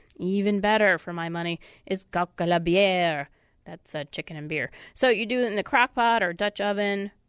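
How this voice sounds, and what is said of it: Congested, stuffy-nosed voice. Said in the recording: “I got a stuffed nose”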